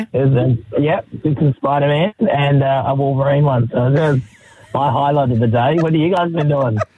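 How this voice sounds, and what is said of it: Hoarse, strained voice. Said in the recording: “So this is your laryngitis ... It does not sound like it's getting any better.”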